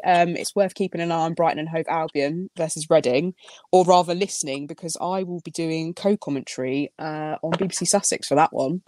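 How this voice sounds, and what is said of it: Rural Berkshire English accent. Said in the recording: “my dulcet Berkshire tones ... you do have that sort of proper farmery Berkshire accent”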